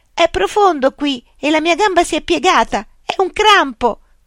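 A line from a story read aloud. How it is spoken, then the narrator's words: Panicked panting shout. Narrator (Italian): gridò, dimenandosi nell'acqua e ansimando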